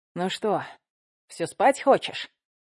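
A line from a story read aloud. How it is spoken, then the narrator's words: Amused snort. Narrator (Russian): хмыкнул он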